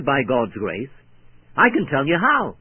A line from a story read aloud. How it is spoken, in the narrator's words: I quickly answered